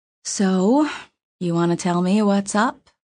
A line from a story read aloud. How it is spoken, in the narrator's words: she asked nicely, softly